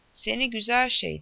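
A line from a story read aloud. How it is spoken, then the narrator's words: Shouting. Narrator (Turkish): diye haykırdı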